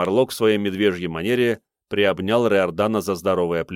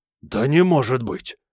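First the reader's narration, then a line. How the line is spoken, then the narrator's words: Astonished exhale. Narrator (Russian): выдохнул в изумлении Кармарлок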